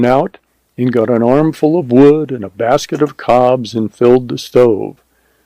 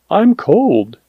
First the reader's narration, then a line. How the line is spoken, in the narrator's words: faltered